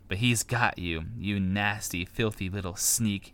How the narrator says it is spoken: he spat on Sam's neck

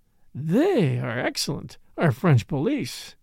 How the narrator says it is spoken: he murmured to himself

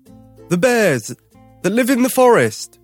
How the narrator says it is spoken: his father shouted

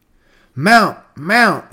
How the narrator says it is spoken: he cried

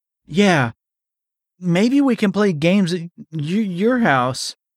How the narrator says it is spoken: he just sputtered out

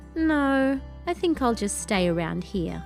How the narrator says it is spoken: said sadly

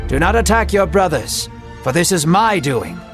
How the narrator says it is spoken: the Lord spoke to him sternly, saying

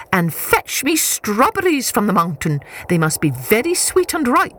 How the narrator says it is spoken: she shouted

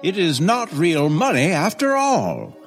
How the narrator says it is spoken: cried the man

